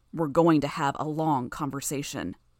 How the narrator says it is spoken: Gru spoke, his tone low and menacing

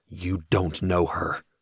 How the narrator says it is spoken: growl

